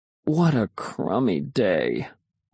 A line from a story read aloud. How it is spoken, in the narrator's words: moaned